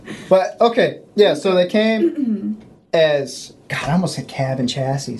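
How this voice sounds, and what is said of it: Boston accent. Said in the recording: “There's the Boston... I love when the accent comes out.”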